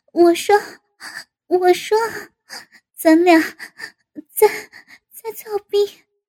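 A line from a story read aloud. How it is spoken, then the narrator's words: Breathless. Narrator (Chinese): 气喘着道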